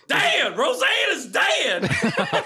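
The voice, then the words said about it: Yelling sitcom character impression. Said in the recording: “your Jackie impression ... Jackie just yells on the show all the time.”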